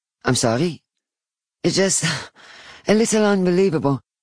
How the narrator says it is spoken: say, laughing nervously

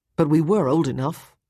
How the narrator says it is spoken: Tommy said

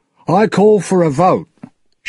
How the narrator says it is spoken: shouted Jack

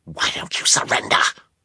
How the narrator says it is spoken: she hissed

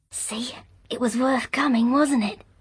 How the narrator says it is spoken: Under the noise the manservant made unrolling the stiff linen and setting it up on its frame, she whispered

